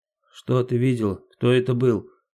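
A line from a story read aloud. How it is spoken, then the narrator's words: Mumbled. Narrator (Russian): забормотала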